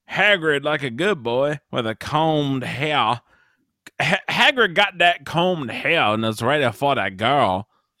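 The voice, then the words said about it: Imitated Hagrid accent. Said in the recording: “Just that accent?”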